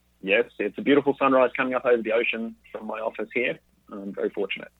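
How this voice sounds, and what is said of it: Australian accent. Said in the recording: “can you hear the voice, the accent? ... we're actually talking to you very early in the morning over there at in Australia”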